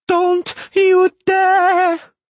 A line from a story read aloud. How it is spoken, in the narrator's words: she screamed, piercingly shrilly